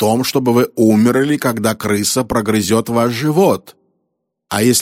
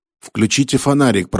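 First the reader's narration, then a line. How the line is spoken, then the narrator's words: Ghostly mutter. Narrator (Russian): пробормотал призрачный голос, в котором Брил узнал голос Яург Сингха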